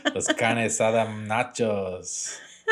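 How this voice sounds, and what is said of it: Put-on accent. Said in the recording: “good practice on your accent... I'm good at accents”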